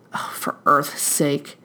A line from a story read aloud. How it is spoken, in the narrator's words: Crowley hissed out